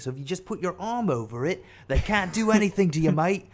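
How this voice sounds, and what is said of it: Weak put-on Australian accent. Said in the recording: “that's not a great Australian accent ... talk like Steve Irwin”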